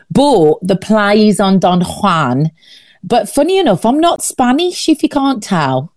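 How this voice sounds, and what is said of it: Birmingham (Brummie) English accent. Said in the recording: “I am originally from Birmingham ... little clues there in the accent. I thought, I couldn't place the accent, but I thought, it's not Spanish. ... I'm a bummy”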